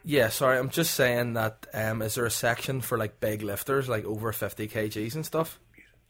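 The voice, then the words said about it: Belfast accent. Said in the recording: “that's probably the accent. I'm from Belfast.”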